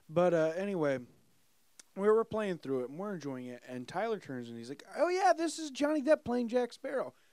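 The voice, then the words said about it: Hoarse, worn-out voice. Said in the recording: “My voice is destroyed from the wedding last night and this podcast.”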